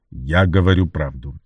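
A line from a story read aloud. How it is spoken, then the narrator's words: Cold reply. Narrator (Russian): ответил он холодно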